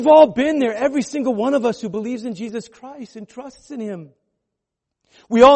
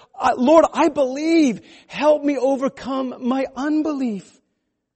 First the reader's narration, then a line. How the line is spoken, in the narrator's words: the father cried out